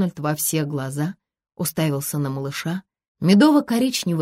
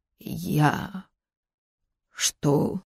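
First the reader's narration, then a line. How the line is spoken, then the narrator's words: Confused hoarse rasp. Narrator (Russian): непонимающе прохрипел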